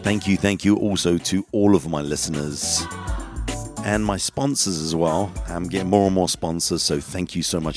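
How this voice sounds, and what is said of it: Groggy voice from a cold. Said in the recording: “I do have a little bit of a cold, so that's why my voice may sound a little bit groggy”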